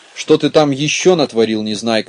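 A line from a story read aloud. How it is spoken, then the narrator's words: Angry. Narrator (Russian): сердито подступила к нему Кнопочка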